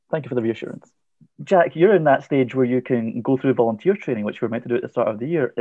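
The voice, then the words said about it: Scottish accent. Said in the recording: “a Scottish person host this podcast ... your accent's fine”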